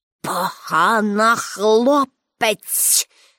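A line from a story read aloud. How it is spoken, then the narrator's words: Hissed through teeth. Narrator (Ukrainian): засичав крізь зуби директор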